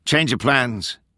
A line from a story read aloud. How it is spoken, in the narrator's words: Delta I called out above the wind